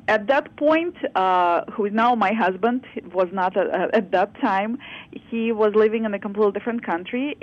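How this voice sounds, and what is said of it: Non-native English accent. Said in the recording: “I'm not originally from here, as you can probably say based on my accent.”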